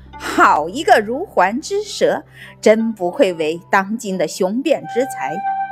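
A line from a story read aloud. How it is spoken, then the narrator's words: Laughing loud praise. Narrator (Chinese): 乾隆 放声大笑，连连称赞道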